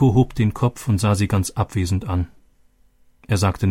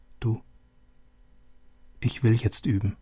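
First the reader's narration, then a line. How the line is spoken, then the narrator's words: Quiet. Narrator (German): Leise sagte sie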